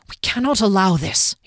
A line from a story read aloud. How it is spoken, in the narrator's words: he hissed to the others